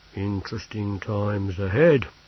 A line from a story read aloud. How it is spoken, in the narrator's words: he said gloomily